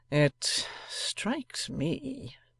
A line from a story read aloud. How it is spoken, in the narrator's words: remarked Eugene coolly